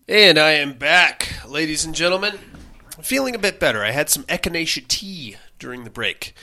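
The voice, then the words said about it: Hoarse, nasal congested voice. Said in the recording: “hoarseness. Am I coming across hoarse? ... I'm still very nasally, though”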